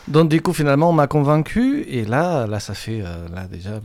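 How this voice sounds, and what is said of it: Catalan accent speaking French. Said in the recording (French): “Vous n'avez pas le même accent? ... moi je suis catalan”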